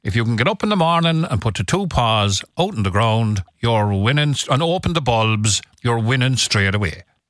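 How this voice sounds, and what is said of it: Put-on Cork accent. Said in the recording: “He'd do it in slightly more Cork parlance, though, and with a Cork accent.”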